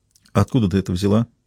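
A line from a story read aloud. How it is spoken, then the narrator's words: Quiet question. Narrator (Russian): тихо спросила Хелена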